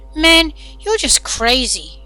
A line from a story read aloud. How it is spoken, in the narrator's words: Alex exclaimed to his mother